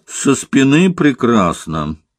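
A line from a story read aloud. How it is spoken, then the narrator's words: Sharp bark. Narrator (Russian): рявкнул Самуил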